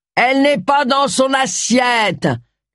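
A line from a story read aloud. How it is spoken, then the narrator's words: Shouted. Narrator (French): cria Charles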